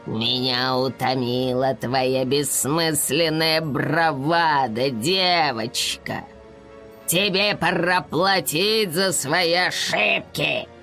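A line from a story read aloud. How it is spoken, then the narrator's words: Dark knight's growl. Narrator (Russian): Прорычал темный рыцарь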